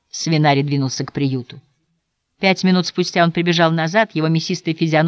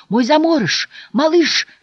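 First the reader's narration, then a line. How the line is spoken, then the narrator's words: Shouting. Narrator (Russian): кричал он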